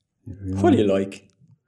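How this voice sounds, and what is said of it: Bad put-on Irish accent. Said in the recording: “That's my best Irish accent. ... That's really bad.”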